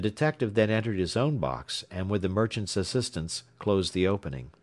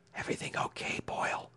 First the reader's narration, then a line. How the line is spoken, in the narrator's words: he whispered